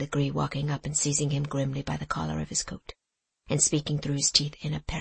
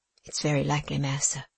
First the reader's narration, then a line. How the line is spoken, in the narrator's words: said Tom calmly